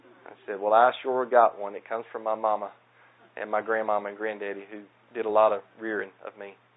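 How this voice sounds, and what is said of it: Southern American accent. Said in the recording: “I had no idea that you had a southern accent. ... I'm thankful for my southern accent.”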